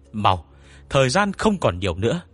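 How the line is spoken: Urgent shout. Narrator (Vietnamese): Anh ta vội vàng hét lên

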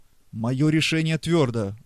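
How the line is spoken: Exclaiming. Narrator (Russian): воскликнул Преста

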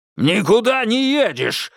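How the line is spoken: Father barking. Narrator (Russian): рявкнул отец

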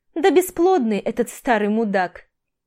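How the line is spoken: Laughing. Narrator (Russian): Маша хохотнула

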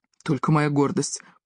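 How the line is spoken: Muttered. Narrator (Russian): пробормотал он

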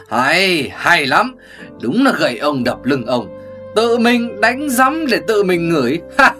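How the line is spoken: Hearty laughter. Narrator (Vietnamese): Hồ Tuyết Hoa bật cười ha hả

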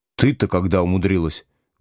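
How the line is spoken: Sadly surprised. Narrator (Russian): грустно удивился Слушкин

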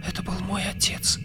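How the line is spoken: Young woman's whisper. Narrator (Russian): прошептала девушка

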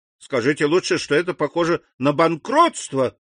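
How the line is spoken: Exclaiming in despair. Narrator (Russian): воскликнул господин Бовиль

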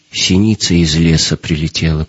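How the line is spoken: Dull, lifeless voice. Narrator (Russian): произнесла женщина каким-то потухшим голосом

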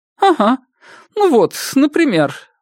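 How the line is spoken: Exclaiming with light laugh. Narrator (Russian): воскликнула Ясмин с легким смешком

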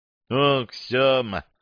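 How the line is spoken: Sighing. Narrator (Russian): вздохнула Грейс

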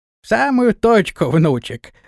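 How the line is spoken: Laughing. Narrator (Russian): рассмеялся Флаппий

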